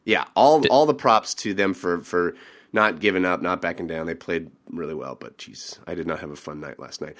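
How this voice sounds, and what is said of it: Sick-sounding voice. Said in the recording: “I'm sick. You can probably tell from my voice.”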